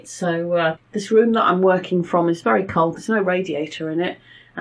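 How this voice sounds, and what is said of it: Voice sounds funny, after coughing. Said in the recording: “my voice sounds funny, I've just had a coughing fit”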